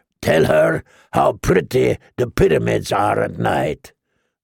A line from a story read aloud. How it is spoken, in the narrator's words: the slaver growled